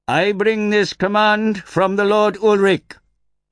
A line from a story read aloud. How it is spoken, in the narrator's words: shouted